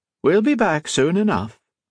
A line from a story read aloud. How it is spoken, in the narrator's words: Miss Hackendottir said playfully